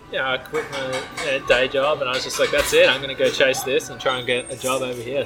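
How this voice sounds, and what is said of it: Non-local accent. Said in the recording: “Never lose the accent.”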